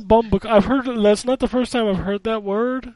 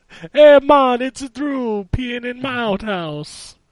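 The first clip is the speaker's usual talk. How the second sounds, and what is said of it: Put-on Jamaican accent. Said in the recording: “I think he had a Jamaican accent”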